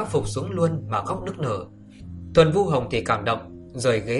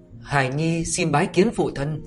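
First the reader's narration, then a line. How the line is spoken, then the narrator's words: Tearful, earnest, trembling. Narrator (Vietnamese): Tề Khôi Nguyên mắt thì ươn ướt lệ mừng, đầy vẻ thiết tha, giọng nói thì hơi run run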